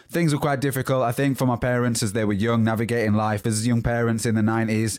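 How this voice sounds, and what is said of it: Softened West Yorkshire accent. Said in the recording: “I was born in Huddersfield, West Yorkshire, and that's where the accent comes from. But it's changed a little bit”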